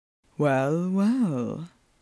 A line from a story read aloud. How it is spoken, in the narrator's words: murmured Phelps